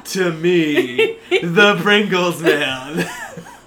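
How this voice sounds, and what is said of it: Impersonation of the Pringles man. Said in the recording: “your impersonation was good enough?”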